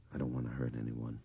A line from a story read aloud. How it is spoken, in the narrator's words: Craig Toomey muttered through his tears